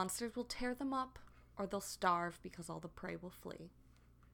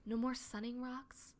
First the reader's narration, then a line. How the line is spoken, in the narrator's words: Squirrelpaw asks quietly, and she sounds like a scared kit